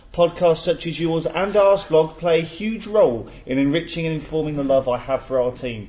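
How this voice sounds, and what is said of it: Put-on American accent. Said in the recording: “as an American ... Do you want me to do the accent? ... He's not Wi- Irish.”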